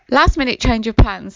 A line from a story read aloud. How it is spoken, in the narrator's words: said Davenport